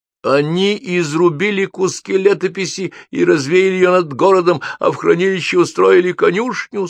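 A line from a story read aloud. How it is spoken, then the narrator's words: Struggling words, then sobbing. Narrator (Russian): с трудом выговорил писатель и разрыдался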